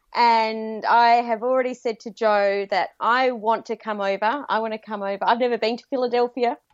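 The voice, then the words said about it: Australian accent. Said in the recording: “I have a very strange accent. That's because I live in Sydney, Australia.”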